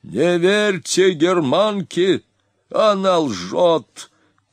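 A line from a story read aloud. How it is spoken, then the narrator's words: Shouting from a height. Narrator (Russian): кричал он с возвышения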